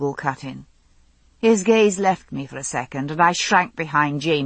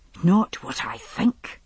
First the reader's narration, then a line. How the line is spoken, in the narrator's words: he said, still speaking softly